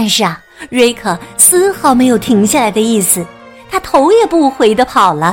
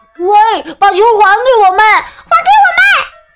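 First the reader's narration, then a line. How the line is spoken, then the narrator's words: Children shouting loudly. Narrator (Chinese): 几个小伙伴大声喊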